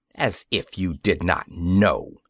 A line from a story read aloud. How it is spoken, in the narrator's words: he said haughtily